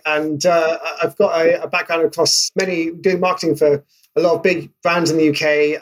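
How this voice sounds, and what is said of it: British accent. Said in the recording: “obviously based in the UK. In case my accent didn't give that away”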